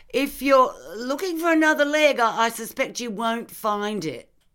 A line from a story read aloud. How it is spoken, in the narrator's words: I called out to him